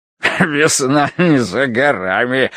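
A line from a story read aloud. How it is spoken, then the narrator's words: Guffawing. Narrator (Russian): расхохотался он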